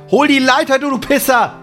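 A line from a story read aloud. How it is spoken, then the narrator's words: Angry shout. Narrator (German): schreit Sam ihn an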